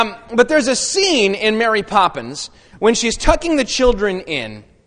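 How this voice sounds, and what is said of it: Usual voice. Nothing is said of it.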